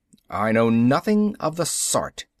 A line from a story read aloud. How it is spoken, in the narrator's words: Abravanel snorted